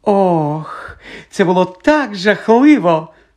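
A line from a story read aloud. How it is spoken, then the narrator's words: Gleeful drawl. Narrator (Ukrainian): радісно протягла вона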